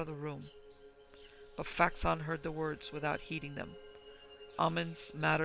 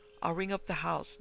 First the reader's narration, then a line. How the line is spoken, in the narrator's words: The lodgekeeper, stammering